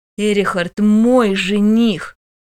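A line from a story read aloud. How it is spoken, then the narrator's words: Hissing. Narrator (Russian): зашипела бывшая Кронса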